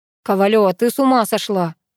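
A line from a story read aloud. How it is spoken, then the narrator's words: Grumbling. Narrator (Russian): ворчал Пашка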